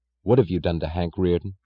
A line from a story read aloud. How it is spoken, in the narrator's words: she asked, her voice hard